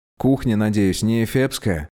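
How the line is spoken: Plain question. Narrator (Russian): спросил Тепик

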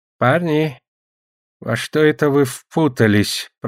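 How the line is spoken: Wheezing sorcerer. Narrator (Russian): просипел колдун

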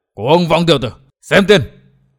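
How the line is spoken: Furious old man roaring. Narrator (Vietnamese): lửa giận đốt cháy tâm can của Sa Thiên Lý, lão gầm lên

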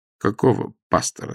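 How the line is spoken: Plain question. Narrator (Russian): спросил я

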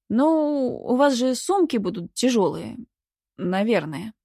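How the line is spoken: Uncertain suggestion. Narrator (Russian): предположил он неуверенно

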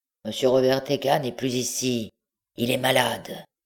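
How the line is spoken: Growled, muffled reply. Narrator (French): La voix grogna et répondit sourdement

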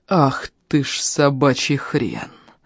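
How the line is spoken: Furious words through teeth. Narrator (Russian): Процедил он, чувствуя, как багровеет окружающий мир

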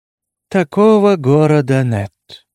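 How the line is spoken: Lazy. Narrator (Russian): лениво заявила она

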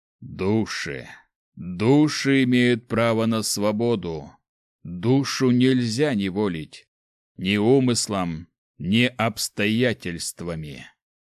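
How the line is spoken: Creaky old voice. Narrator (Russian): Проскрипел старческим голосом Ким

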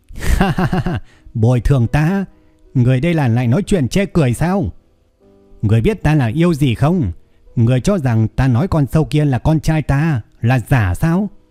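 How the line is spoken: Old man's manic laughing question. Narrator (Vietnamese): Lão già điên cuồng cười lớn hỏi

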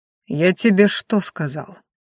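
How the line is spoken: Cold question. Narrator (Russian): холодно спросил Ранхаш

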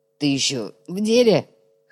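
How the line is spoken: Hoarse voice. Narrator (Russian): хрипит четырехрукий

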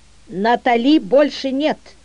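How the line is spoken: Calm firm voice. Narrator (Russian): спокойным, но твердым голосом сказал Мишель

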